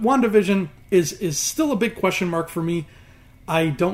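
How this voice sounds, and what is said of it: Usual voice. Nothing is said of it.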